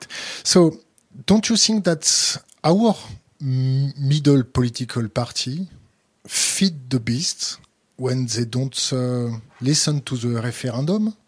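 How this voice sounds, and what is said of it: French accent. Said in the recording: “Sorry from, for my French accent”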